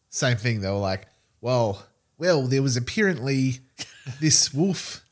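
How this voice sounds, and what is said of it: Imitates another person's accent. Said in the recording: “Is that my fucking accent? ... I'm doing Reese Darby.”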